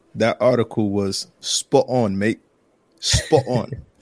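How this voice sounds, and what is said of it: Put-on London accent. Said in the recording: “I'm going to use my best London accent when I describe that article.”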